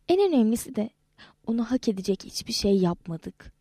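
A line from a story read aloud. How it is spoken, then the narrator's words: Whispering. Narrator (Turkish): diye fısıldadı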